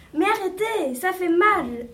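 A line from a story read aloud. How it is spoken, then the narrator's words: Screamed. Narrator (French): hurla la marguerite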